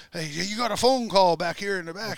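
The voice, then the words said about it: Imitates another person's heavy French accent. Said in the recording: “He's talking in his big French accent”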